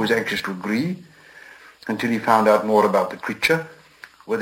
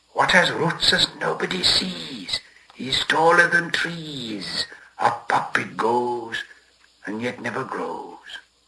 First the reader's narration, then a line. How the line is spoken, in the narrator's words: Gollum hissed